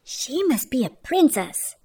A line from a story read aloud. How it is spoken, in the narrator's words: whispered the guests